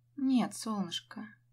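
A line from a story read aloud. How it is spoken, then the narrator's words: Said gently. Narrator (Russian): говорю мягко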